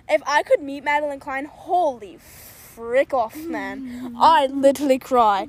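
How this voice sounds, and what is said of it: Put-on English accent. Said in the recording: “Why did I switch into an English accent?”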